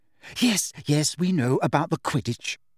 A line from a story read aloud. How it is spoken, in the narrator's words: said Hermione in a tense voice